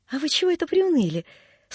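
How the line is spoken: Cheerful question. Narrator (Russian): спрашивал дядин приказчик весело

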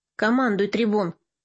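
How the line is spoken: Weary emperor. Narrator (Russian): устало проговорил император

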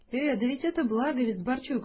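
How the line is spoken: Exclaimed. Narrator (Russian): воскликнул

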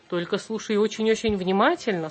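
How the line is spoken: Plain, rabbit. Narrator (Russian): сказал кролик

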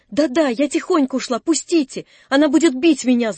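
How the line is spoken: Shouting while struggling. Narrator (Russian): закричала она, видимо, проговорившись и вырываясь из моих рук

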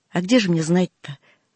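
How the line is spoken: Sigh. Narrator (Russian): вздохнула Галина

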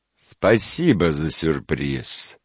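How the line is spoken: Gloomy reply. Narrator (Russian): мрачно ответил муж

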